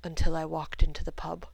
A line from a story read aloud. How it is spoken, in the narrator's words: he said quietly